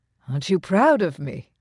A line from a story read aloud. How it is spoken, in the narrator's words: he murmured, just loud enough for those nearest to overhear